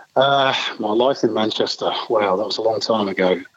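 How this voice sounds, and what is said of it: Manchester English accent. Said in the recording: “grew up uh, in Manchester. I think we can tell from the accent.”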